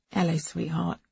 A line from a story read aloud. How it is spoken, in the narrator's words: said Dad, softly